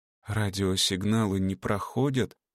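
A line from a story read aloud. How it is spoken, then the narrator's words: Dejected question. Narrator (Russian): упавшим голосом спросила Марина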